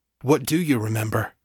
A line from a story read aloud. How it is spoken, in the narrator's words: Chase asked, his tone anxious